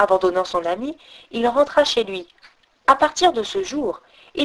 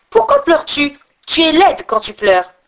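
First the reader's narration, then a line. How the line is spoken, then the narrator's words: Shouted. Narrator (French): il lui cria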